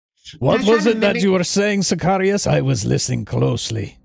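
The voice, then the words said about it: Put-on French accent slipping into Spanish. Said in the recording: “I slip in and out of like a Spanish accent. I don't know how I can't do French. ... Canadian. ... I'm terrible at this.”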